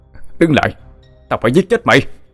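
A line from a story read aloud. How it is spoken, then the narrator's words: Shouting. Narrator (Vietnamese): Anh hét lên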